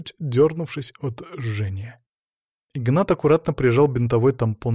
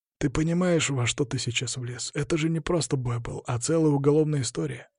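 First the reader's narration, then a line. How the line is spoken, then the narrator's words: Sighing. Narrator (Russian): вздохнул он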